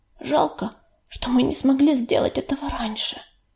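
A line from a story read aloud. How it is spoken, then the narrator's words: Whisper. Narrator (Russian): прошептала она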